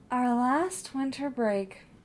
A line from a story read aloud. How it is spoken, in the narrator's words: Marianne said, wistfully